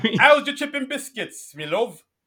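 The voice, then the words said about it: Exaggerated bad British accent. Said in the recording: “it's a really bad British accent, too ... not even that good”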